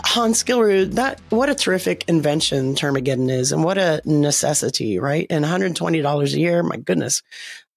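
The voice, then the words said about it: Strained, fading voice. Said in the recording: “I think I'm losing my voice now.”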